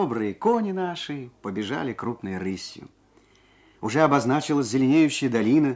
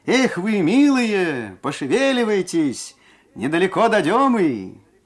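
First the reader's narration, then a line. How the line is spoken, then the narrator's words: Cheerful shout, coachman. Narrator (Russian): кучер Трофим весело крикнул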